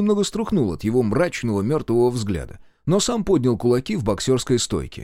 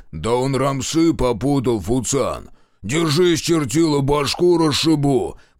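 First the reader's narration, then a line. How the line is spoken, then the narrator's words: Booming threat. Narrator (Russian): прогудел Каштан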